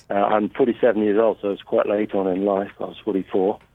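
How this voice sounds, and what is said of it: English accent. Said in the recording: “Southampton, English, England ... I'm trying so hard not to copy your accent”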